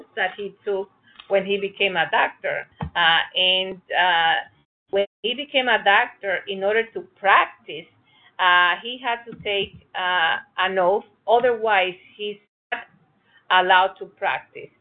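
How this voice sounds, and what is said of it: Heavy foreign accent. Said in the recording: “I have such a heavy accent”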